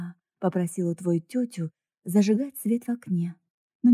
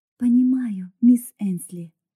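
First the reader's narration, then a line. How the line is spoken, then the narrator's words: Gentle, loving confirmation. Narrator (Russian): мягко подтвердила Рут, сердце которой таяло от любви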